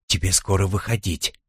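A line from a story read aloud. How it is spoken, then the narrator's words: Whispered. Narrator (Russian): шепнул Рошель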